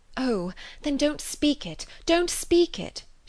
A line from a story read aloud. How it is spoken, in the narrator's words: she eagerly cried